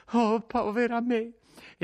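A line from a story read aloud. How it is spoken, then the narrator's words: Sobbing exclamation. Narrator (Italian): esclamò di nuovo singhiozzando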